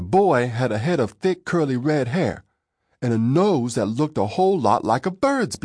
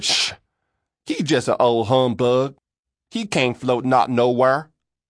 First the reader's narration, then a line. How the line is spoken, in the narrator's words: He laughed and said